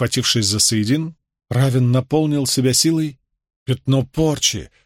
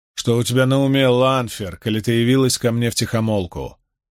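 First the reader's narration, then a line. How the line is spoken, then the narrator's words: Rough question. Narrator (Russian): грубо спросил Равин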